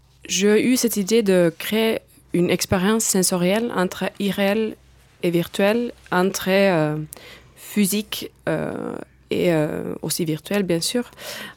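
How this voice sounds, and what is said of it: Slight Finnish accent in French. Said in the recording (French): “je viens de Finlande, d'où aussi mon petit accent”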